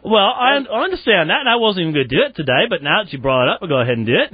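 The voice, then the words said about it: Put-on English accent, Dick Van Dyke-like. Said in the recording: “your English accent ... That's like Dick Van Dyke, is it, that you're doing now? ... oh, blimey, Mary Poppins. Very worrying.”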